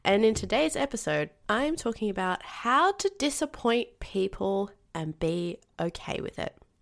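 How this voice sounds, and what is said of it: Nasal voice from a cold. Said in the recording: “I'm coming at you with a cold ... I may sound a little nasally ... I have a cold, and I'm really feeling it today”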